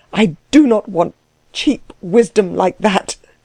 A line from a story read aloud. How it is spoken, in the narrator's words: cried Klutz, his eyes ablaze